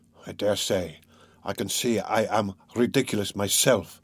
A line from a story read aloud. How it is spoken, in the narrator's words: muttered Raskolnikov angrily